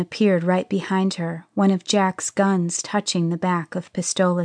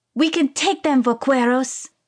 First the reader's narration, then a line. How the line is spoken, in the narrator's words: cried Pistola